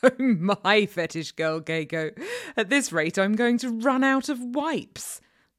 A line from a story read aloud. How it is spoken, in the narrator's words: the nurse laughed